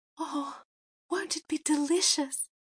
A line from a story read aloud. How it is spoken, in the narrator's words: sighed